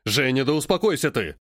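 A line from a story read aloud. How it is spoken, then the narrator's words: Exasperated barking. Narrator (Russian): В очередной раз рявкнул Стаминский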